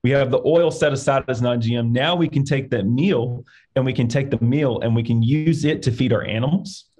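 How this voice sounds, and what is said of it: Arkansas accent. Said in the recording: “I have an accent from Arkansas.”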